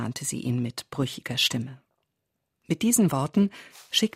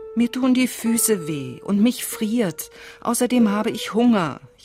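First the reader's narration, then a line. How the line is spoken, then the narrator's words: Whining. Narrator (German): jammerte Philipp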